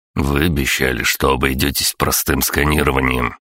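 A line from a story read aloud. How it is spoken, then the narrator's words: Grumbling. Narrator (Russian): проворчал Виктор Викторович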